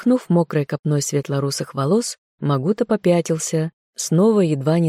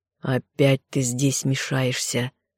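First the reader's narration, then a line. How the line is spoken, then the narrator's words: Through gritted teeth. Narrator (Russian): Он процедил сквозь зубы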